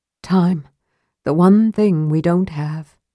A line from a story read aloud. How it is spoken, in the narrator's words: Lorana said with a sigh